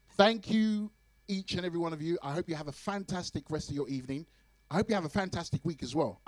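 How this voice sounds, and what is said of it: Hoarse, worn-out voice. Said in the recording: “you can tell that my voice is gone, yeah. Yeah, my voice is gone.”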